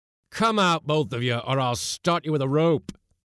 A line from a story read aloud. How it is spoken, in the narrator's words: roared the irritated commander